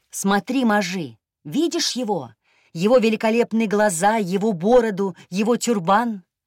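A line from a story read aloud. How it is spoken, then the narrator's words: Chanting with shouting chorus. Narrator (Russian): Он продолжил скандировать вместе с невидимыми призрачными соседями, которые кричали те же слова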